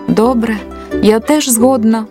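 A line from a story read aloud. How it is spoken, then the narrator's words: Groaned. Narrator (Ukrainian): простогнала тополя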